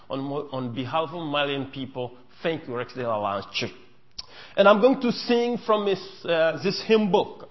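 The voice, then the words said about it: Non-native English accent. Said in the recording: “English is my fourth language. Just bear with my accent.”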